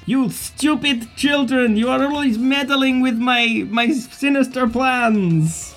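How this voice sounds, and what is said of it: Angry villain with slipping Russian accent. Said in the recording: “my accent, by the sound of it. I'm so angry, I cannot maintain my Russian”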